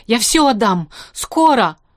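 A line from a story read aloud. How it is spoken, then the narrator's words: Shouted out. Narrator (Russian): выкрикнул Лимбах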